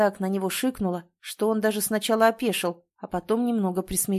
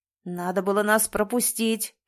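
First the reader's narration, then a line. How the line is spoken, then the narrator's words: Man growling. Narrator (Russian): прорычал мужчина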